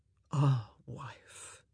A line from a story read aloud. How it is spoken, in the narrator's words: he murmured